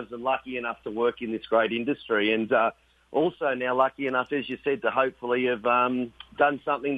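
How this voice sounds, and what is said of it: Strong Australian accent. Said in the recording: “I've got a pretty good Australian accent”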